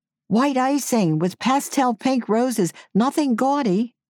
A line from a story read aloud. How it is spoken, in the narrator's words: shouted after them